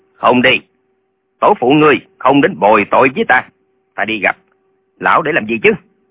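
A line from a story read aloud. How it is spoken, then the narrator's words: Angry. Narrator (Vietnamese): Lệnh Hồ Xung tức giận nói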